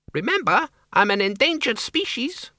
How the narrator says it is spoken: the Count squeaked

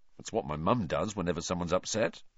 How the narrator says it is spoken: Ron muttered

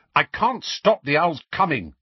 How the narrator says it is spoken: Harry snapped

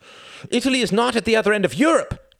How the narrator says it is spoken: cried Eden

